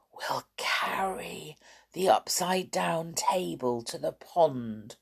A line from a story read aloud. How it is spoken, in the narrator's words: she whispered